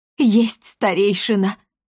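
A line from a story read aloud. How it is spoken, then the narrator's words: Sobbing. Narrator (Russian): всхлипнул хранитель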